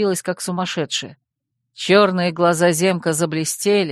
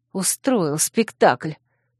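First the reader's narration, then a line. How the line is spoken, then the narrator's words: Hissing. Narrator (Russian): прошипела я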